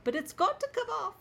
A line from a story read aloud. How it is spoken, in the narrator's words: squeaked Hermione